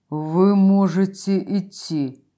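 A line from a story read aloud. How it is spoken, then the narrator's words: Wooden voice. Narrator (Russian): деревянным голосом произнес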